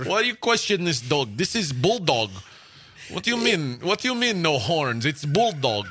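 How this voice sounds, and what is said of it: Convincing put-on Russian accent. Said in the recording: “Man, that's a good Russian accent ... that is a good Russian accent ... That's a really good Russian accent”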